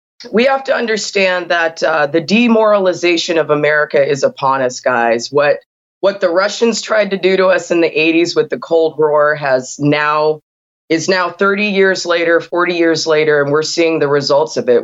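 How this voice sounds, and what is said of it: Hoarse, strained voice. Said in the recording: “I lost my voice, but I'm going to do my best.”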